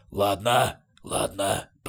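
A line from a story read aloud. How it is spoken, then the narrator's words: Grumbling. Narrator (Russian): проворчал двуглавый Юл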